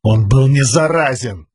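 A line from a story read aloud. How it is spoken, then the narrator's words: Exclaiming. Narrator (Russian): воскликнул Каладин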